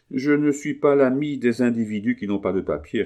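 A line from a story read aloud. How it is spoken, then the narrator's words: Plain. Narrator (French): répondit l'agent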